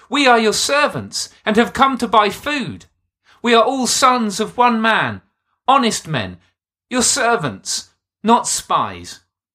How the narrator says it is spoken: pleaded

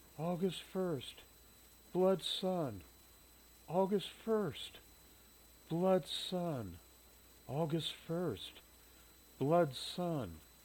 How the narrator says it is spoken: muttered repeatedly

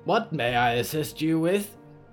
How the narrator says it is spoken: Polly grunted and wheezed out blood again

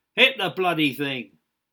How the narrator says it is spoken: Jiggs became frustrated at the lack of volume during the rehearsal and shouted to Copnell

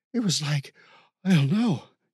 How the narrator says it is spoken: Ken gasped

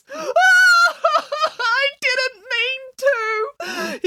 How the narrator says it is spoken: he sobbed

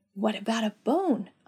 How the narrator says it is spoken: I whispered with my hand to my mouth so Jacques wouldn't hear

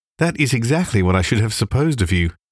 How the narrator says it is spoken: said Elizabeth

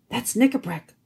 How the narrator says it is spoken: whispered Trumpkin

